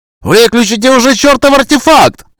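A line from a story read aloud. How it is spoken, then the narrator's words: Yelling. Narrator (Russian): завопил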